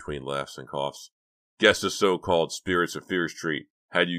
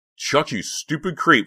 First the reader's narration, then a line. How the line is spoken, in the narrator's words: she shouted